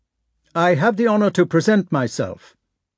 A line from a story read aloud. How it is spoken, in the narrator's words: repeated Prince Andrei rather loudly